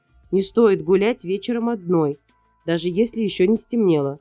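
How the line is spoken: Stern. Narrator (Russian): строго сказал детектив

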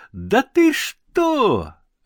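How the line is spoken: Shrill squeal. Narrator (Russian): аж взвизгнул Венька

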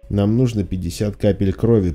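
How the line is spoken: Muttered. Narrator (Russian): пробормотала Келли

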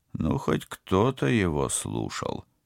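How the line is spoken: Admiring mutter. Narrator (Russian): пробормотал капитан, искренне восхищаясь другом

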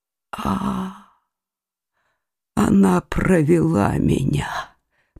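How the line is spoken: Whispered. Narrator (Russian): Прошептал он

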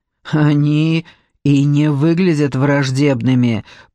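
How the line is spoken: Growled. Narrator (Russian): прорычала Серев

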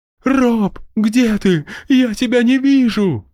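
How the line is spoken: Moaning. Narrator (Russian): стонал первый

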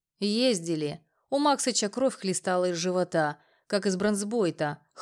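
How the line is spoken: Snorting remark. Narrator (Russian): хмыкнул Слон

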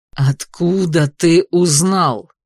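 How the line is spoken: Growled. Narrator (Russian): Артур прорычал

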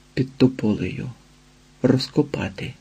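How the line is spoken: Hunted, frightened whisper. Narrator (Ukrainian): прошепотів зацьковано

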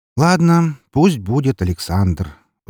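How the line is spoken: Sighing. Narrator (Russian): вздохнул незнакомец

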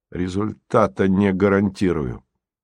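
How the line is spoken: Gloomy. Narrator (Russian): Красин добавил мрачно

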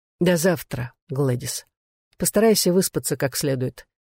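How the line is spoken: Quiet. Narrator (Russian): сказал Пол негромко

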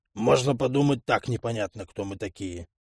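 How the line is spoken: Grumbling mutter. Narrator (Russian): пробурчал Арчи

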